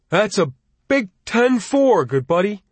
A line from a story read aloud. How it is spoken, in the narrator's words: Summoning up his own Christmas spirit, Jimmy cried